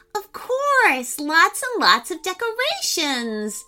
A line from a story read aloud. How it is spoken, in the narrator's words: exclaimed Emmie enthusiastically